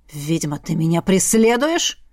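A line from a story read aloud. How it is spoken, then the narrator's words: Growl, young man. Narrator (Russian): Рыкнул парень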